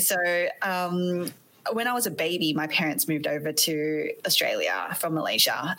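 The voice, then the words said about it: Australian accent. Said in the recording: “You might be able to tell from my accent that I'm not from the States. I am actually Aussie.”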